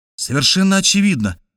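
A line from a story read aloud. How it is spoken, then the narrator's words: Exclamation. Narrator (Russian): воскликнул я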